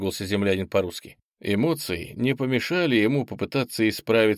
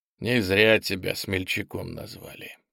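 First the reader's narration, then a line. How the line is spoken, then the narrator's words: Grumbled. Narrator (Russian): пробурчал землянин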